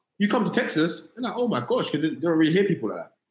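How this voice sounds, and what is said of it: London British accent. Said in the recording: “It's only because your accent that you're doing this in America ... oh, you're from London?”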